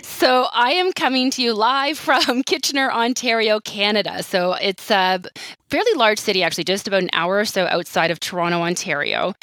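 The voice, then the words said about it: Slight Canadian accent. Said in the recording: “I hear a little bit of an accent ... that's the Canadian accent that you're hearing there”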